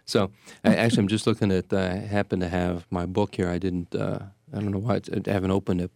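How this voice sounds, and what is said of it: Strained, fading hoarse voice. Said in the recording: “I'm losing my voice here.”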